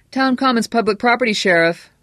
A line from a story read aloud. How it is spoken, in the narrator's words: one of the reporters cried